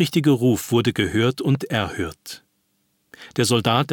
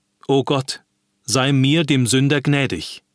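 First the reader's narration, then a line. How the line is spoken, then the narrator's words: Officer exclaiming. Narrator (German): rief der Offizier aus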